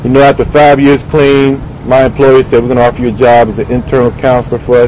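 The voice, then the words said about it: Southern American accent. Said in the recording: “I'm from Virginia. You might have picked up the southern accent.”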